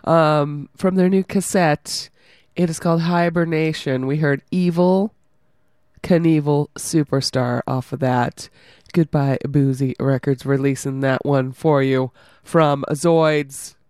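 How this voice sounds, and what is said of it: Hoarse, fading voice. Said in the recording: “I'm losing my voice more, I think.”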